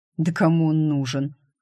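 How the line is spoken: Scoffing man. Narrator (Russian): хмыкнул жгучий красавец-брюнет

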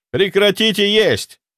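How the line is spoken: Yelling. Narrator (Russian): заорал я

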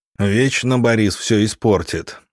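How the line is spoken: Sighing teacher. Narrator (Russian): вздохнул учитель

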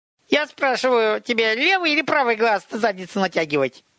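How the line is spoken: Shrill screeching reply. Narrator (Russian): Визгливо-пронзительным, словно скрип металла по стеклу, голосом ответил Чимай

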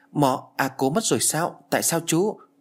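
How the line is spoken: Stammering question. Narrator (Vietnamese): Tôi lắp bắp hỏi

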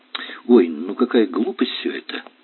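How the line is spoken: Annoyed sigh. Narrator (Russian): с досадой вздохнула Женя

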